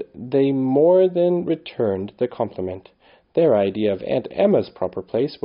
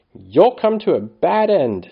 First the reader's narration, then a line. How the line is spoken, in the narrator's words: she said furiously